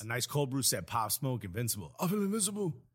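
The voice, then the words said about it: Imitates another person's voice. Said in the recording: “I love your Pop Smoke impression. ... My Pop Smoke impression.”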